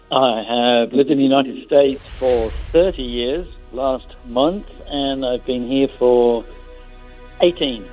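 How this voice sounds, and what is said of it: British accent. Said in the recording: “You have not lost your British accent”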